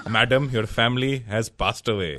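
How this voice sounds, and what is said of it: Put-on Indian accent. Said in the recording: “they want the Indian accent”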